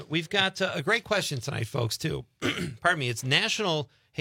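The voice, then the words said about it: Briefly raspy voice. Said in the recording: “I sounded like Lois Lane. ... My voice got a little raspy.”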